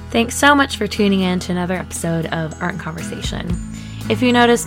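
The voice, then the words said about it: Slightly rough, hoarse voice. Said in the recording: “my voice is a little rough this time around. I'm recovering from a cold”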